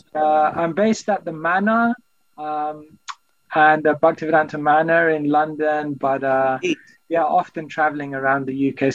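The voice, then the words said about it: British English accent. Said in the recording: “Your accent, you're from England ... I hear an English accent ... That is a British accent.”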